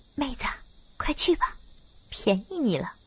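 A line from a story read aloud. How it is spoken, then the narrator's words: Low voice. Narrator (Chinese): 美红低声说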